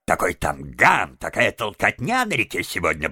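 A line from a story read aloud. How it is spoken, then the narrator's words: Grumbling. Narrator (Russian): проворчал мистер Выдра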